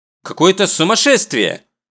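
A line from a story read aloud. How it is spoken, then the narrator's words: Indignant exclamation. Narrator (Russian): возмущенно восклицает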